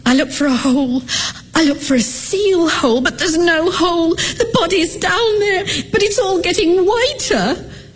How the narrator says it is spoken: she wails like a great soft thing and says

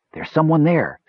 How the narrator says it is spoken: said Klotnik

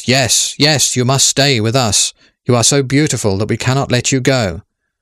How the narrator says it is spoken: everyone there cried with one voice

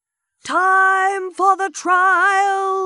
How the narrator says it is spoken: someone suddenly shouted

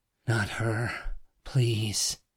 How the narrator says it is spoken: he gasped

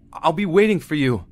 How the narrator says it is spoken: He gets extremely upset and yells

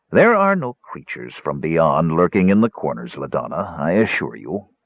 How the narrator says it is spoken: the old mage said dryly

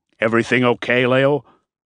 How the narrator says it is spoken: Miller was coughing and chuckling at the same time

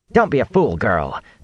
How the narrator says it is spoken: Nynaeve snapped

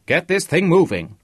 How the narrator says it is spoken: shouted

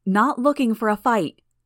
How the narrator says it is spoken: Tattletale called out

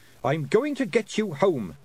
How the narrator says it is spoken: snapped Tiffany

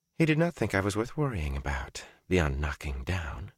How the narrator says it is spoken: she whispered

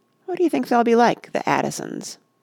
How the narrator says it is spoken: Rush wondered lazily

